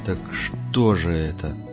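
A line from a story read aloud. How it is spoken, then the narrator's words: Drawling. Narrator (Russian): протянул Пард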